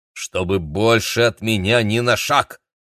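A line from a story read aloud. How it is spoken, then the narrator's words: Stern command. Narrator (Russian): строго велел близнецам Игорь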